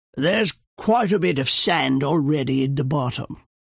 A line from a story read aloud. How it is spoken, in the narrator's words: breaking the silence like a clatter of spoons on the floor, Churchill rasped